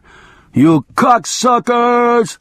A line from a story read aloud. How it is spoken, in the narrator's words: he screamed over his shoulder